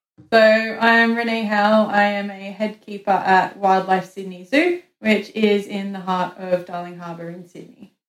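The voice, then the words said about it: Australian accent. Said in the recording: “between saying Sydney and the accent, I'm going with Australia? ... Yes, Australia, that's for sure.”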